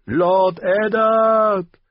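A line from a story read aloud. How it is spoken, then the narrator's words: Called again. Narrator (German): rief Lyanna erneut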